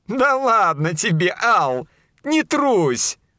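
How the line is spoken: Chuckling. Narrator (Russian): хохотнула Мизери

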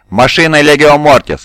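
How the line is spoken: Loud, decisive speech. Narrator (Russian): громко и решительно заговорил Принцепс Кавалерио

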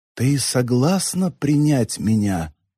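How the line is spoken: Barely audible question. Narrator (Russian): спросила госпожа, едва слышно

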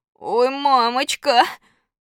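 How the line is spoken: Sobbing, sighing cry. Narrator (Russian): Громко всхлипнув, Костя глубоко вздохнул и вместо волшебных слов заклинания сказал

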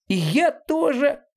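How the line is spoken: Small animal squeaking. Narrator (Russian): пискнул маленький зверек

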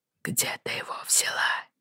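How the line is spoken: Barely audible repetition. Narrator (Russian): повторил чуть слышно

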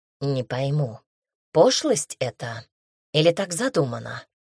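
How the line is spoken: Whispered. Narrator (Russian): шепнула Эллен Джонатану

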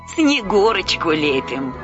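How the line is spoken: Old woman answering, laughing. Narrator (Russian): ответила старуха и засмеялась

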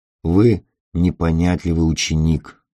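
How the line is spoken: Soft. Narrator (Russian): мягко сказал О'Брайен

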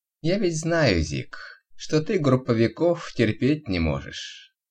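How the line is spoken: Almost affectionate tone. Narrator (Russian): говорил он почти ласковым тоном

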